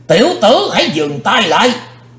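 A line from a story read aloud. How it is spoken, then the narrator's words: Terrifying shout. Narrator (Vietnamese): có tiếng quát thật khiếp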